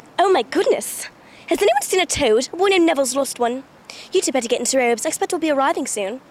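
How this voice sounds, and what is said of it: English accent imitating Hermione. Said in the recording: “the English accents ... the Hermione accent”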